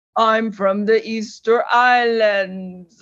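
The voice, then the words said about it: Put-on foreign accent. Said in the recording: “Wherever did you develop this accent?”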